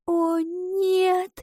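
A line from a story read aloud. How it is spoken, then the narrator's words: Whispered. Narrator (Russian): прошептала она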